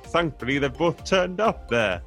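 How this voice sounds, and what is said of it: Poor imitation of an Irish accent. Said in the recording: “I'm going to do a terrible impression, sorry everybody from Ireland”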